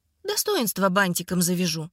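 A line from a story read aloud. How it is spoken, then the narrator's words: Calm. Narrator (Russian): спокойно ответила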